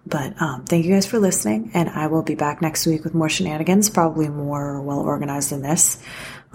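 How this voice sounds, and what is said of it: Whispering. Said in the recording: “my sister's trying to sleep, so I'm trying to whisper.”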